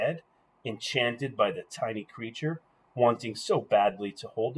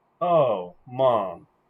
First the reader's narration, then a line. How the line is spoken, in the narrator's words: Janie said